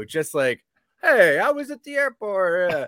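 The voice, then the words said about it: Put-on New York accent. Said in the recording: “I don't know why I gave him that New York accent.”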